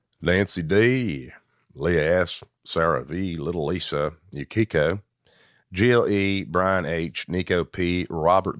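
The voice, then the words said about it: Put-on Southern accent. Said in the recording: “dialect. I'll see if I can do it. It might be bad. ... it might be bad. S- Southern.”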